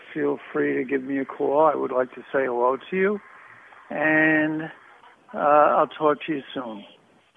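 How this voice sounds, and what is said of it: Heavy New Jersey accent. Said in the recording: “a Jersey accent, too ... Yeah, real heavy.”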